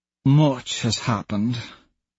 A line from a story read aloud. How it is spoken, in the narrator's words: Mickey murmurs